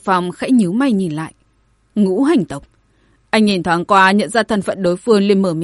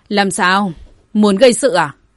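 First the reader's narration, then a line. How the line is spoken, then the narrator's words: Cold question. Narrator (Vietnamese): Bạch Phàm lạnh lùng hỏi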